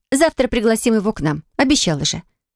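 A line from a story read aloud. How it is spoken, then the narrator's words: Displeased tone. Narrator (Russian): Ответила брюнетка недовольным тоном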